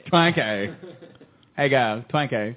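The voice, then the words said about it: Weird put-on accent. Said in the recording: “it sounds like a really weird accent saying Twinkie”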